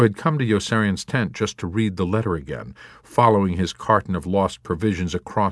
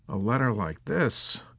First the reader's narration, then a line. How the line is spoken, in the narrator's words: Milo mumbled despondently